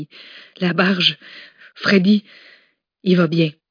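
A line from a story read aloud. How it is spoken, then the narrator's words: Sighed. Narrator (French): avait soupiré Simone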